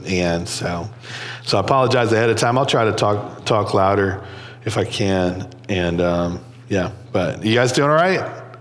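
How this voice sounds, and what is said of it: Congested, sinus-affected voice. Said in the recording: “My voice is going to be different today... the sinuses come on me. And there's a lot of drainage, and it affects my throat.”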